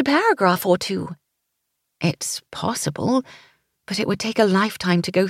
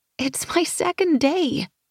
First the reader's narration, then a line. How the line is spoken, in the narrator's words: I whined